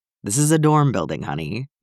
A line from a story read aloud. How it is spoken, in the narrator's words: Bucky chuckled fondly